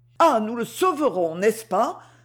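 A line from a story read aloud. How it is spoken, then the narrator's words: Tearful exclamation. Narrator (French): s'écria Lucette en larmes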